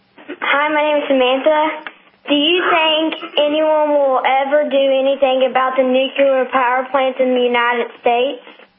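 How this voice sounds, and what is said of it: Child with a charming accent. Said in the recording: “I love your accent. It's so charming. Even as a child, it's just lovely.”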